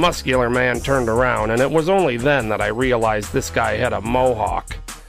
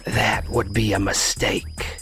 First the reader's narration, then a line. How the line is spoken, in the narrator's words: a man whispered